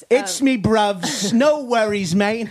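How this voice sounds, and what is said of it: Put-on British accent. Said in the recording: “That was a fucking perfect accent ... British accent”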